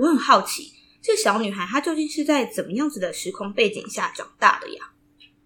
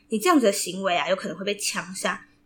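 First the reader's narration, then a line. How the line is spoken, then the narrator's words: Furious threatening grandfather. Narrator (Chinese): 阿公震怒 阿公生气的 阿公还恐吓他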